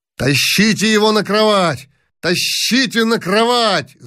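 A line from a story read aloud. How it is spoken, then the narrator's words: Shout. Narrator (Russian): закричал князь Яшвиль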